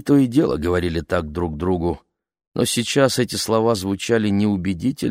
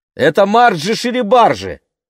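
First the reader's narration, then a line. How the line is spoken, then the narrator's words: Shouted. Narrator (Russian): крикнула она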